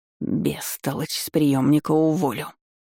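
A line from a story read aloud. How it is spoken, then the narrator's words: Feeling hiss. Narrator (Russian): с чувством прошипела Ванда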